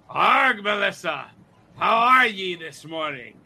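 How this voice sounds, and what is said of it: Gravelly put-on pirate voice. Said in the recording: “My throat already hurts just listening to you do that ... Talk Like a Pirate Day”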